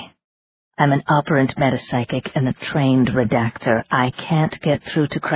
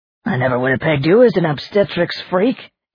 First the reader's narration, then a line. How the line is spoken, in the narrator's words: Aiken jeered